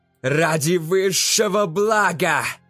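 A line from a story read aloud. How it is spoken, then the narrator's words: Angry shout. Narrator (Russian): прокричал Ша Суи скорее с гневом, чем с убежденностью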